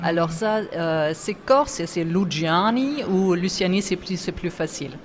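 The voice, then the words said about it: German-tinged French accent. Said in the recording (French): “j'ai des origines allemandes, hein. Si vous entendez mon accent, c'est pas corse”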